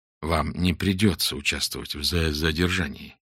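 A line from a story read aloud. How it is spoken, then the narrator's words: Quiet. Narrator (Russian): тихо сказал ему Фондорин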